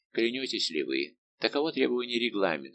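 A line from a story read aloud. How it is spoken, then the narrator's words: Plain. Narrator (Russian): сказал комендант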